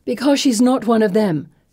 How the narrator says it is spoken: Felicity snaps

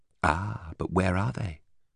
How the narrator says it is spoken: indignation faltered

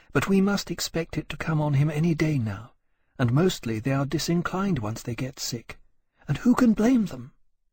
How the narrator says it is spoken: she said gently

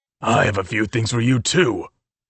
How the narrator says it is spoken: he snapped

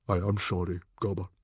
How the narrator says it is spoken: said Stoic the Vast, solemnly

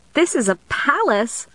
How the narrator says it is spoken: I exclaimed

